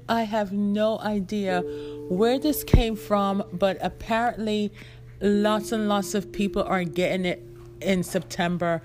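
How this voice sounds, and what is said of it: Hoarse, sick-sounding voice. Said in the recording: “I sound hoarsey, I am sick”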